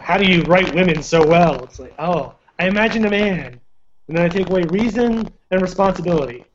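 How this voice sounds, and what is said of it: Poor impression of another person's voice. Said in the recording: “worst Jack Nicholson impression I've ever heard”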